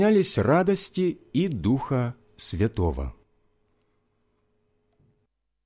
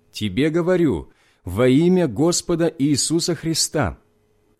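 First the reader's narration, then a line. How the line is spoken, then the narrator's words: Loud voice. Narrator (Russian): Павла, который сказал громким голосом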